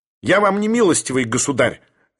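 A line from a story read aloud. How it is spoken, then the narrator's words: Sharp declaration. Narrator (Russian): резко заявил блондин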